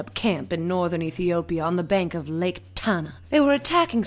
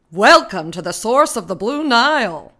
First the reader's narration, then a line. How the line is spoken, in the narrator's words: he shouted